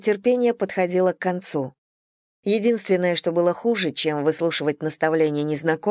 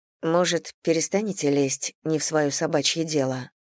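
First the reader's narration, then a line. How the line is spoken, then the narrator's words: Calm, matter-of-fact. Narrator (Russian): Произнесла я так спокойно, будто объясняла ей дорогу в незнакомом районе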